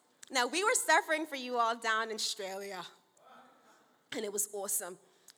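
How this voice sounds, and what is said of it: Put-on Australian accent. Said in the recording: “That's my Aussie accent.”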